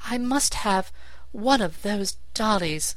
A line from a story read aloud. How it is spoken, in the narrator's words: she exclaimed